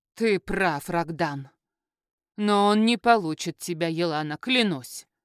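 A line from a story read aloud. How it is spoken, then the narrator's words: Menacing. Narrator (Russian): произнесла грозно Златовея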